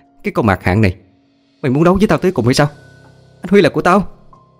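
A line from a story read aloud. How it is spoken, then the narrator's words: Jealous screaming. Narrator (Vietnamese): Thấy cảnh đó không chịu đựng được, ả thét lên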